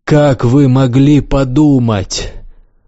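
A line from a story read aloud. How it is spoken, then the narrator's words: Loud laughter. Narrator (Russian): Властелин расхохотался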